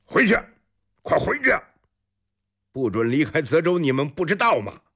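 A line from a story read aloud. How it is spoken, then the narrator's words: Loud scolding. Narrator (Chinese): 有人在大声斥骂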